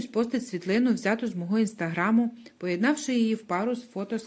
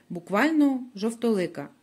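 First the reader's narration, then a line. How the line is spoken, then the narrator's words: Plain. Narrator (Ukrainian): відповідає хтось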